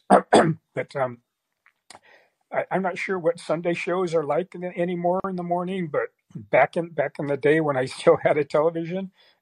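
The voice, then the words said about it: Cracking voice, sounds ill. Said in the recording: “I'm still a little fever delirium, and my voice is cracking a lot from my illness”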